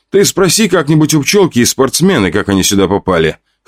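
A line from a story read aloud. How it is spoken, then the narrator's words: Wry snort. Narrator (Russian): хмыкнул я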